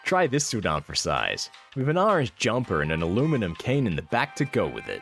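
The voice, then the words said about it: Put-on American accent. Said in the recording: “I'm about to read this out in an American accent.”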